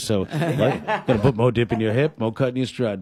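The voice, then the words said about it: Radio DJ voice. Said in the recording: “radio voice”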